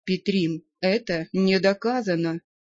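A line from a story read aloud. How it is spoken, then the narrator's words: Quiet interjection. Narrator (Russian): тихо вмешался учитель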